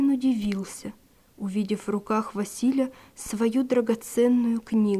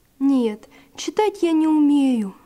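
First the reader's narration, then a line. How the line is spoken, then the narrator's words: Sighing. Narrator (Russian): вздохнул Василь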